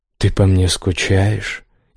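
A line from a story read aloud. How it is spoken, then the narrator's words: Hoarse voice. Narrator (Russian): его сиплый голос словно повис в воздухе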